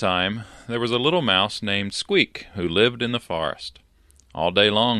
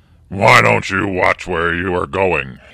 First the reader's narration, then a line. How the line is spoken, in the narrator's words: he roared at the mouse